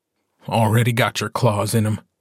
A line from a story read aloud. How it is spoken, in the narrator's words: Gordo says in a dead voice